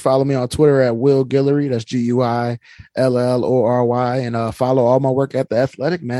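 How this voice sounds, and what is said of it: New Orleans accent. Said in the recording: “you keep that New Orleans accent strong”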